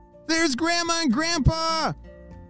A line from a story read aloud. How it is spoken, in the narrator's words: shouted Ellie